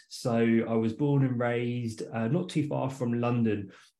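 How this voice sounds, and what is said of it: English accent. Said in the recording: “I've got a bit of a funny accent. That's because I'm from England.”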